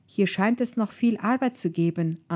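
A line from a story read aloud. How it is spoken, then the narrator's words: Plain answer. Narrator (German): antwortete Carver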